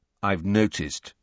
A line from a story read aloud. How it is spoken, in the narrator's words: said Harry coldly